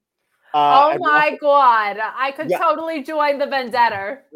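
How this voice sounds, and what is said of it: Put-on Jersey girl accent. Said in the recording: “do your Jersey girl accent ... I sounded like all my aunts just now.”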